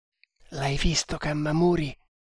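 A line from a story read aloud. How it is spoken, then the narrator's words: Quiet question. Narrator (Italian): chiese sottovoce Tremal Naik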